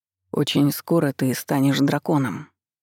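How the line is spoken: Dull flat voice. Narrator (Russian): поправил себя Даррен тусклым голосом

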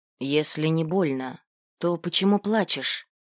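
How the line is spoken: Gentle smiling question. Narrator (Russian): задал вопрос, мягко улыбаясь

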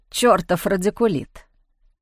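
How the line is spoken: Grumbling. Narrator (Russian): проворчал он

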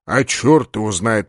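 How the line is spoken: Muttered. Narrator (Russian): пробормотал полубой

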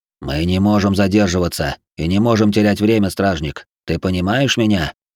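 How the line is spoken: Whisper. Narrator (Russian): Кирт прошептал

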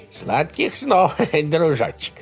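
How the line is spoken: Laughing. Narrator (Russian): хохотнул Джори

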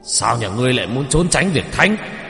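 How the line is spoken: Angry shout. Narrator (Vietnamese): Ông đập bàn mà quát lên

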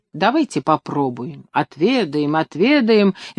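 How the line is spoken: Cheerful guests agreeing. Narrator (Russian): весело поддержали хозяина гости

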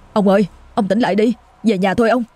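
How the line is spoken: Panicked trembling child calling. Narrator (Vietnamese): Thằng Tý nó hoảng loạn, dồn hết sức vừa kéo vừa gọi, giọng run rẩy

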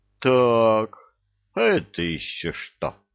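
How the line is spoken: Menacing question. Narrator (Russian): грозно спросил взводный

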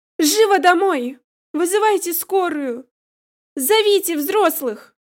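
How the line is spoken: Urgent shout. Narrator (Russian): крикнула она перепуганным соседским мальчишкам

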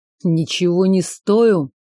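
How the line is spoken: Growl through teeth. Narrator (Russian): прорычал сквозь зубы

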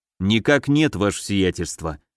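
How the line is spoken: Sighing. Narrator (Russian): вздохнул Гагарин

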